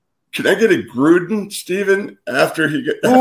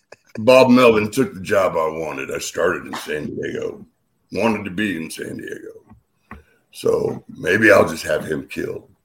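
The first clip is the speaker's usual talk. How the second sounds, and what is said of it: Imitates another person's voice. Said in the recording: “I thought my Bochy was retired, and I just pulled it out of mothballs for you.”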